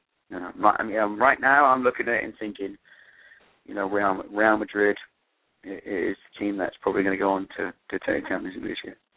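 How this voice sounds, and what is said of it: English accent. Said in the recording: “with the accent, everything you say sounds so much more intelligent than I would say with my American accent ... an Englishman”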